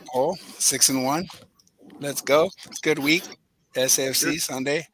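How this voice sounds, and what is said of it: Hoarse, strained voice. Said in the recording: “your voice is a little bit. A little bit sore ... it's completely shot from yelling and screaming”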